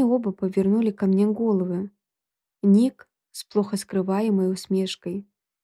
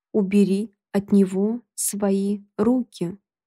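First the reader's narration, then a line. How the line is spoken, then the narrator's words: Cold metallic voice. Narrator (Russian): металлическим голосом произнесла я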